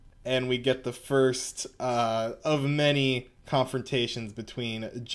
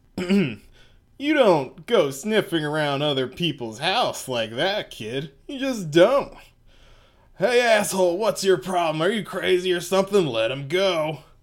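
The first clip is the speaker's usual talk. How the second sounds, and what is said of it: Character voice of Okuyasu. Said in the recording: “I'm gonna do the voice here for Okuyasu.”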